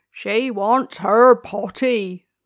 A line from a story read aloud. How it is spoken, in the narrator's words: cried the gardener